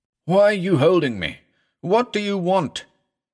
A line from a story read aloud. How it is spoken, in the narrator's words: he cried at last